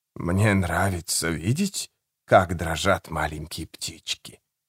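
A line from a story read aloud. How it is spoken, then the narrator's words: Whispered with strange accent. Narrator (Russian): прошептал Барус со странным акцентом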